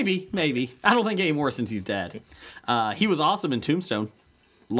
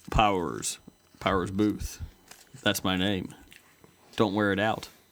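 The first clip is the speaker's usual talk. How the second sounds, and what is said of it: Imitates another person's voice. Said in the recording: “Let me try. I'm a good impression.”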